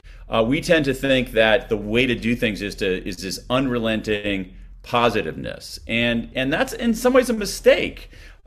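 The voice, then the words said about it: American accent. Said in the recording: “your listeners know from my accent that I'm an American”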